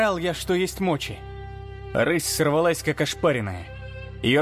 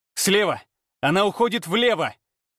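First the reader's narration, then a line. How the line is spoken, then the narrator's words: Silent mental shout. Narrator (Russian): мысленно крикнул я Афине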